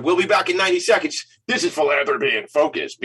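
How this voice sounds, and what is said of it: Exaggerated radio announcer voice. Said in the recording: “big time radio voice”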